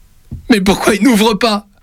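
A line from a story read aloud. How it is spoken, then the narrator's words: Shouting. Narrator (French): hurle-t-il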